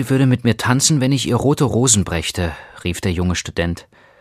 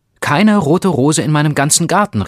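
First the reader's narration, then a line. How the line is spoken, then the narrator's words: Tearful cry. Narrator (German): rief er, und seine schönen Augen waren voll Tränen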